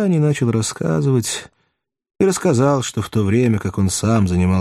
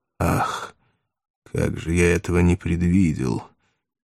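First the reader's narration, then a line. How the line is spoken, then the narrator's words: Startled, hoarse. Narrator (Russian): Пилат вздрогнул, сказал хрипло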